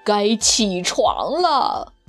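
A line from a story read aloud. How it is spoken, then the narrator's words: Low howling. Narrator (Chinese): 低声嚎叫着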